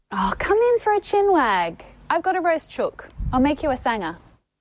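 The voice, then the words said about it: Sing-song Australian English accent. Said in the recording (French): “cet accent si particulier ... il est très chantant et agréable à écouter ... anglais australien”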